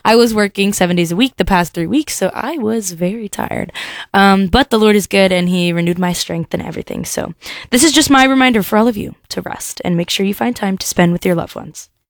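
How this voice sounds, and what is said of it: Deeper, sore-throated voice. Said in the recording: “as you can hear, my voice is a little deeper. I'm getting over a sore throat”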